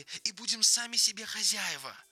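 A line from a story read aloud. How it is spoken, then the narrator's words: Exclaimed. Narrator (Russian): воскликнул Ленни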